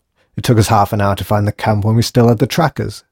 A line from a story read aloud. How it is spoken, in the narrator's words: snapped Starling